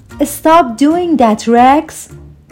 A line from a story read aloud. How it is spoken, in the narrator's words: cried Trudy